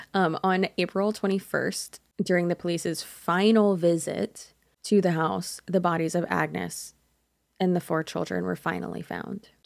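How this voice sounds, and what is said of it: American accent. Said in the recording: “I just sounded so dumb saying that in my podunk American accent.”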